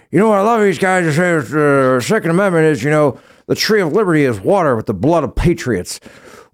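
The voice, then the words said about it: Joe Biden voice impression. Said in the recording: “you got to do it in a Biden voice”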